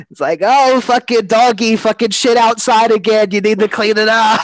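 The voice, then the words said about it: Old broad New Yorker accent. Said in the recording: “old dame broad New Yorker vibe ... that was a great impression”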